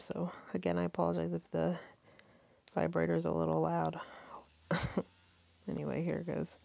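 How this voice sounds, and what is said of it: Stuffy, congested voice. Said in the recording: “I'm kind of stuffy. I have a cold.”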